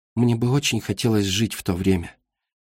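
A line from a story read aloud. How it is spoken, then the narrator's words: Quiet. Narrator (Russian): тихо заговорила она снова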